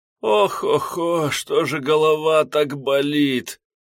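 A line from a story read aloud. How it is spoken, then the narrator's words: Groaning. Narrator (Russian): простонал Арсений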